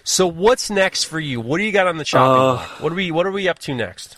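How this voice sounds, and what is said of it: New York accent. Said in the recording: “I have a New York accent ... I'm gonna stick with the New York accent”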